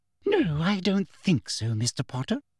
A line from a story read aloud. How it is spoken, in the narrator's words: said Umbridge sweetly